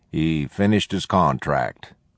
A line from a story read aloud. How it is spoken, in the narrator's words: Penny said blandly